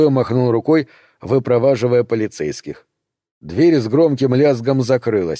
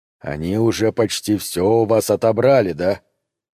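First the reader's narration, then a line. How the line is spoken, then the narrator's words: Low voice, slight European accent. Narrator (Russian): спросил низким голосом с едва заметным европейским акцентом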